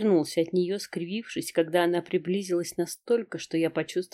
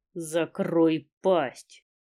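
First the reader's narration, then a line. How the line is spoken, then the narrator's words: Furious through teeth. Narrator (Russian): процедил сквозь зубы от бешенства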